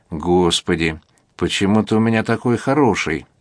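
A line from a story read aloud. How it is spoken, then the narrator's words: Kind voice. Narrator (Russian): добрым голосом отвечает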